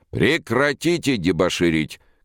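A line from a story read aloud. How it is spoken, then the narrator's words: Booming shout. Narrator (Russian): крикнул он зычным голосом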